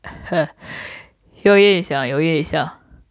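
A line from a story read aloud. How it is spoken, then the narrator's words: Insincere, forced reply. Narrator (Chinese): 洪国平皮笑肉不笑的回答道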